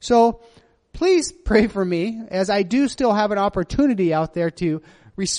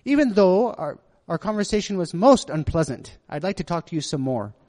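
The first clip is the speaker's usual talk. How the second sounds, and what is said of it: Weak put-on British accent. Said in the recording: “see if I can do my British accent ... Did I do that right? My British accent? No, they say it wasn't very good.”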